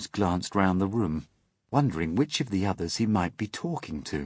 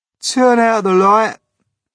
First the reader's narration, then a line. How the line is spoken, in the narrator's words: called, raising his voice